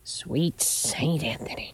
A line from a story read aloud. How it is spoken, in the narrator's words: she muttered